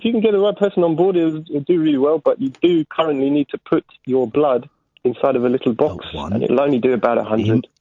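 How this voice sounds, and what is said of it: Foreign accent. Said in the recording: “I noticed an accent ... foreigners rock”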